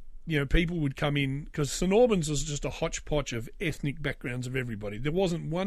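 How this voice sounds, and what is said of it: Usual voice. Nothing is said of it.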